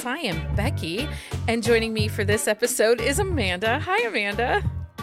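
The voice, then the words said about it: Breathy radio-host voice. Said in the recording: “my newscaster voice ... like, Dr. Laura ... Delilah ... like, sex voice thing ... it was very breathy”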